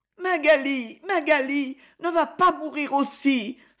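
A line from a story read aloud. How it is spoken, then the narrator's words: Sobbing. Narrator (French): sanglotait son frère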